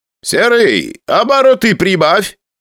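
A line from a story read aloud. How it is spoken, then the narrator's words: Shouted. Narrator (Russian): крикнул Бажанян, чтобы я шел быстрее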